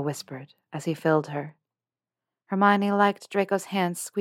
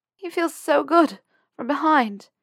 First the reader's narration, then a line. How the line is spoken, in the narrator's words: panted her portrait